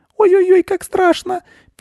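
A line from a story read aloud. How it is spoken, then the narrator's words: Squeaking little mice. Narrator (Russian): пищат мышата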